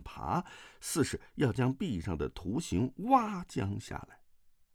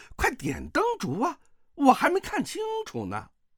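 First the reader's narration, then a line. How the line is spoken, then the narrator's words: Calling out. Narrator (Chinese): 有人却叫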